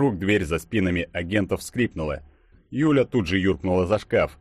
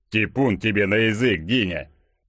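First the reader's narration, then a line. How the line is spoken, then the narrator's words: Grumble. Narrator (Russian): Пробурчал Игорек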